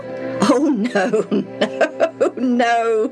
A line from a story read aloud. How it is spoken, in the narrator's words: Reuben laughed